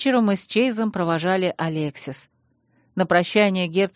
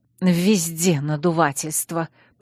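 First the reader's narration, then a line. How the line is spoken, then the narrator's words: Hiss. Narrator (Russian): прошипел Виктор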